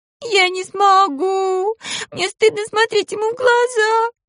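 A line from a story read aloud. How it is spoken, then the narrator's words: Sobbing vampire woman. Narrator (Russian): вампирка снова зарыдала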